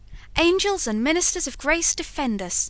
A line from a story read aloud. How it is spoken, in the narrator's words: exclaimed George